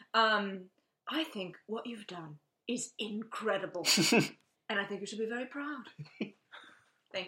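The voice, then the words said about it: Imitates another person's voice. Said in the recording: “doing a Monty impression? ... Monty impression, yeah.”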